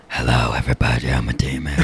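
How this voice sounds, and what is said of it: Funny possessed-demon voice. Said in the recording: “talk in a funny voice like, I am here from the 1922 ... There you go. It's perfect that you did it exactly right.”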